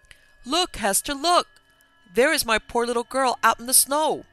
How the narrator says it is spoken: all of a sudden she cried out

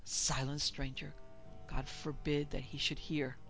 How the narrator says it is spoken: one old chap hoarsely whispered

